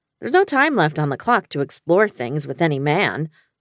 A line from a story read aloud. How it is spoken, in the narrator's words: I said firmly